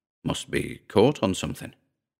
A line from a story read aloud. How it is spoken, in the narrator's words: Calvin muttered